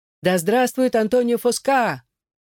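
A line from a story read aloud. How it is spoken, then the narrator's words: Crowd shouting. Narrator (Russian): они кричали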